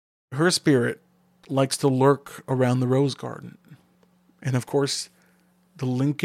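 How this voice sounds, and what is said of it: Usual voice. Nothing is said of it.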